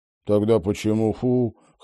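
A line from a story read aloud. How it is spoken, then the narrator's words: Forced brave chuckle. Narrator (Russian): хохотнул Фрэнк, храбрясь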